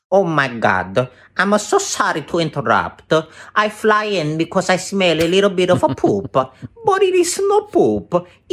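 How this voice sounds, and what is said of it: Comedic voice of a fly. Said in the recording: “impersonation? I think he's done a fly before.”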